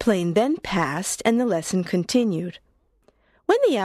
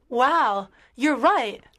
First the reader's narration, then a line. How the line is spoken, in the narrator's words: she exclaimed